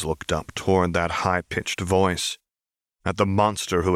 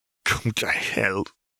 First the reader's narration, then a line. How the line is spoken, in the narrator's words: James wheezed